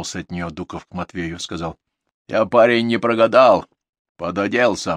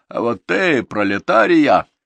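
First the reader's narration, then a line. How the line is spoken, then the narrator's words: Laughing. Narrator (Russian): засмеялся он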